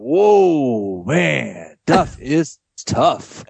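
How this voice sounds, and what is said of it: Impression of broadcaster Rex Hedler. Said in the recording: “Rex Hedler says something ridiculous ... That's a really good impression, actually.”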